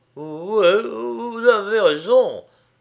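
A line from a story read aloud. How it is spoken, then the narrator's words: Stammering. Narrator (French): balbutia le chef de la milice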